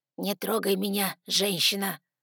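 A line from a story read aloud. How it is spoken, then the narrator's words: Father, growled. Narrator (Russian): прорычал отец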